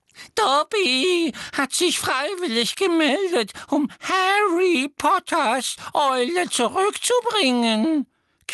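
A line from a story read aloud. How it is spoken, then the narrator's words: Admiring elf squeak. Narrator (German): quiekte der Elf mit einem Ausdruck unverhohlener Bewunderung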